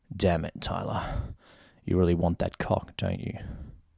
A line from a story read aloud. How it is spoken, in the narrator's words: Harlan grumbled